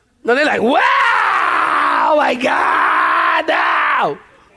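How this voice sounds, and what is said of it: Exaggerated wailing cry. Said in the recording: “when the Jewish people cry, they cry, y'all ... That's my impression.”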